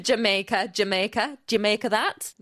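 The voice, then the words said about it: Bad Jamaican accent sounding Geordie. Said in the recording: “No, that was terrible. ... that sounded Geordie ... the accents aren't my strong point”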